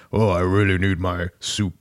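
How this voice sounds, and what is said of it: Imitates Optimus Prime's voice. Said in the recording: “This is my best Optimus Prime impression.”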